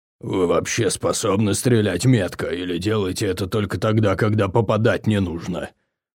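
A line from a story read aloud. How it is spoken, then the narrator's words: Displeased growl. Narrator (Russian): прорычал Угрх, явно недовольный соседством с двумя стрелками, которые обосновались в прицепе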